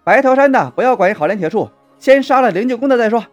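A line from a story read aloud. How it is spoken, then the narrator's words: Shouting. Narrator (Chinese): 有人喊道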